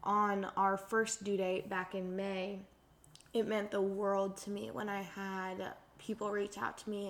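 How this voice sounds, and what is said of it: Sad, emotional voice. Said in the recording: “I'm sure you can hear it in my voice, but I do still have a lot of sadness”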